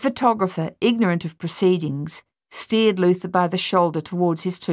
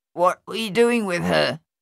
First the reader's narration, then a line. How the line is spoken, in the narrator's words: Thaddeus asked Luther, his voice nasal and clotted